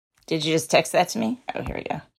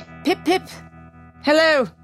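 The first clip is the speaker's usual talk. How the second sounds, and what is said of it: Put-on British accent. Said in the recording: “That was my British accent.”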